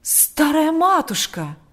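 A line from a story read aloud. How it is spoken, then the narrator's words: Horrified exclamation. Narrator (Russian): воскликнул отец Кирилл в ужасе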